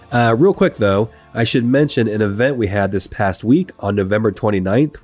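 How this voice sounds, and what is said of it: Sick, strained voice. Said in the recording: “I am extremely under the weather today. My voice is probably very difficult to listen to”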